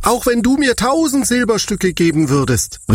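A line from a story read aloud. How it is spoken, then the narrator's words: Indignant shout. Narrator (German): rief er entrüstet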